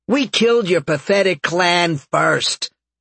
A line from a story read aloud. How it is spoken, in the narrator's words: Gerald taunted